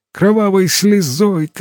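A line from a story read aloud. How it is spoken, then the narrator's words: Shouted. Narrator (Russian): кричал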